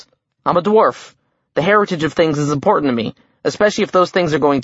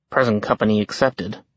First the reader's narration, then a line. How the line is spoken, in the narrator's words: Jack murmured